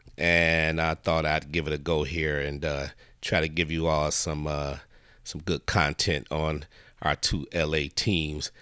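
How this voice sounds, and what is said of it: Sick, under-the-weather voice. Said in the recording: “apologize for my voice. As you can probably tell, I'm a little bit under the weather here ... My voice is getting a little better.”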